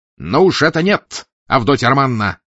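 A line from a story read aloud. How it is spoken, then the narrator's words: Shrill shout. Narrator (Russian): пронзительно выкрикнул Раскольников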